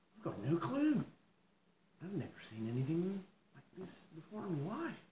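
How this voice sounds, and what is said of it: Weird Scottish-Australian mixed accent. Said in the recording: “This is some weird fucking accent. It's like Scottish and Australian.”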